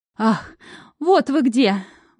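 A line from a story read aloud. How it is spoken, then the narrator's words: Breathless exhale. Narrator (Russian): выдохнул он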